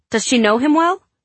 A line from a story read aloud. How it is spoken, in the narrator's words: Katie blurted